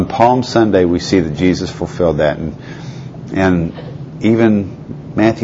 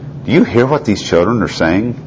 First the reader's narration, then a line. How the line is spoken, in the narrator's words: they asked him